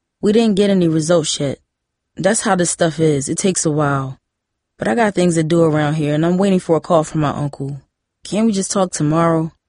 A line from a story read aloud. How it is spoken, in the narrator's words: Hakeem asked